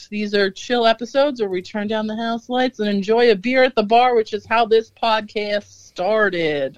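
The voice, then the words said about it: Southern American accent. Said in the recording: “I don't know why I have a southern accent all of a sudden”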